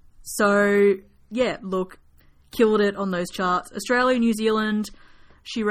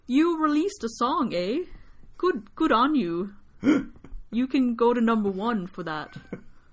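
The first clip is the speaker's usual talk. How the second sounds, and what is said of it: Put-on Canadian accent. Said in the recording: “And that's my Canadian accent.”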